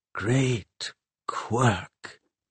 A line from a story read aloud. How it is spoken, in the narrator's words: Pomeroy whispered